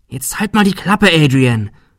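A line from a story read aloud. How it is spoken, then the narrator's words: Quiet snapping hiss. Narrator (German): fauchte Shirley leise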